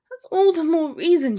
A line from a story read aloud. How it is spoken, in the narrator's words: groaned